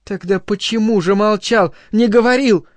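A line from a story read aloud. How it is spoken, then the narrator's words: Exasperated exclamation. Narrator (Russian): воскликнула она, и так выведена была Линайна из себя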